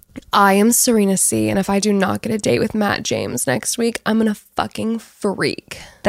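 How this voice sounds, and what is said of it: Impression of Serena C. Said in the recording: “Serena says she is hiding away like a child... that is such a good impression... That is actually creepy. It's like there's a different person next to me.”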